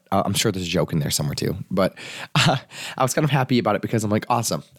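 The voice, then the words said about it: Sick, rough-sounding voice. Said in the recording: “I am sick ... You can hear how sexy my voice is, right? So sexy.”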